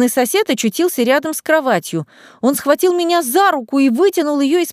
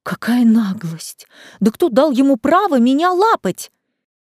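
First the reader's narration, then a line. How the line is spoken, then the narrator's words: Hissing. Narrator (Russian): зашипела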